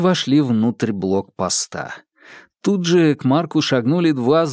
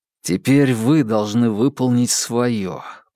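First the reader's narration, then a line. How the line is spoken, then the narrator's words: Through clenched teeth. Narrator (Russian): процедил он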